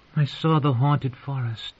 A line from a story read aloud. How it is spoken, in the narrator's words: she said in a wistful tone